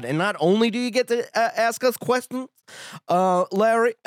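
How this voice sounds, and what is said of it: Imitates another person's voice. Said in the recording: “my JB Smoove impression ... I think that is a questionable accent.”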